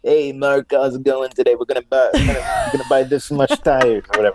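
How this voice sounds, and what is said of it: Put-on salesman voice. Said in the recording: “I'm not the kind of guy that like wears a boot, but like ... How salespeople do. ... I like that accent.”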